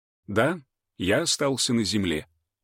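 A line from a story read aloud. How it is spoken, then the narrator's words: Calm, matter-of-fact. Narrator (Russian): ответил он просто и так спокойно, словно говорил о каких-то банальных вещах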